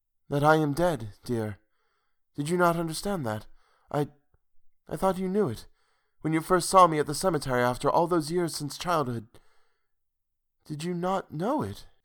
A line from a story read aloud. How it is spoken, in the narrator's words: asked wistfully